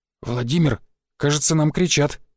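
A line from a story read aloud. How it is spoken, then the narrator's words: Whisper. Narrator (Russian): шепотом проговорил дядя Петя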